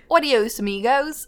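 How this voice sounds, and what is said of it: Spanish words in Australian accent. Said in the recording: “You were speaking Spanish in an Australian accent.”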